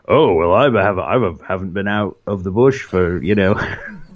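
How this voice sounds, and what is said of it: Put-on Australian accent. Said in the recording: “That's a, that's a, that's a good Australian accent there. I, am I'm impressed.”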